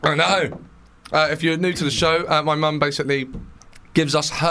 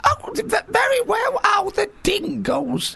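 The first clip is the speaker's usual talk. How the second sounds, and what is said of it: Imitates another person's voice. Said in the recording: “do an impression of my mum”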